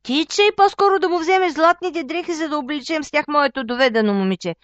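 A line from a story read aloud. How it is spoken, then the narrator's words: Shouting. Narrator (Bulgarian): извикала мащехата на мъжа си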